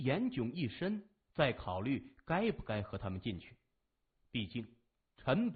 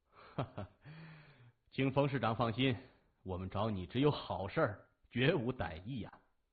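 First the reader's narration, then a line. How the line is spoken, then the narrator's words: Laughing. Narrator (Chinese): 谢文东 仰面一笑说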